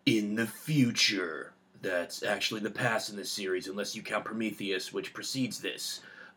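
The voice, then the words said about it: Movie trailer narrator voice. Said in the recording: “my trailer voice ... movie trailer voices”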